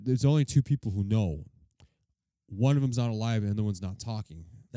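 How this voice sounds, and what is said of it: Imitates another person's voice. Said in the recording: “That's a really good Lanny Poffel impression ... you got it, dude.”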